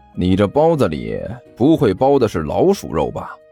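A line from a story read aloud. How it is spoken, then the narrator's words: Plain. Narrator (Chinese): 甘球问道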